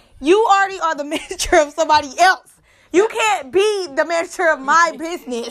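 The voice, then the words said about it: Yelling, raised loud voice. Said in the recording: “I'm yelling”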